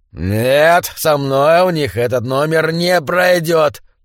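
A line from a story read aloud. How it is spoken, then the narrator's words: Growl. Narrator (Russian): прорычал он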